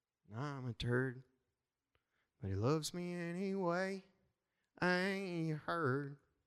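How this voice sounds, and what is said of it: Put-on country twang accent. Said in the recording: “How's my country twang? I'm working on it. I'm trying.”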